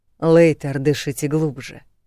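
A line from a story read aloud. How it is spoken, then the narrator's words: Smirking snort. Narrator (Russian): хмыкнул Валентайн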